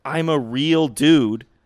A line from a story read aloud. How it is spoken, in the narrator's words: he screams it over the silence